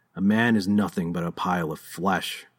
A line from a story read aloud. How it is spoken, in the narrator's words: he growled